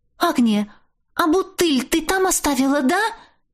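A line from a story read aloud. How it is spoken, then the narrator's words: Sudden frightened start. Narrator (Russian): Вдруг встрепенулась подруга, испуганно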